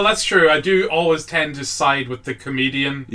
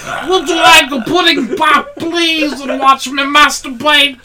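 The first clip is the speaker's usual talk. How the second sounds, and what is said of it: Imitates another person's voice. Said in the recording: “that's my Louis C.K. impression... my Louis impression. Pretty spot on”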